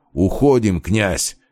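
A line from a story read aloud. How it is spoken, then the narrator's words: Barking shout. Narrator (Russian): рявкнул он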